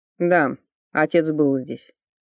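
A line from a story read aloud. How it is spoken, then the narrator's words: Calm confirmation. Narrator (Russian): спокойно подтвердил Ричард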